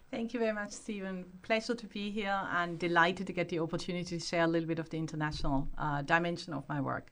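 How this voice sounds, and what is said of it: Hard-to-place mixed accent. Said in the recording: “I can't put my finger on that accent. Where exactly does that come from? Because you come from a combination.”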